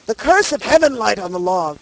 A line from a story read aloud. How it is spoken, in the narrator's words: he exclaimed